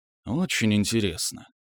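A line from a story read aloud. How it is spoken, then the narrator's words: Quiet old man mumbling. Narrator (Russian): тихо пробормотал старый псион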